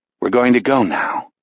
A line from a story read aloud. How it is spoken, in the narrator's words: Jack says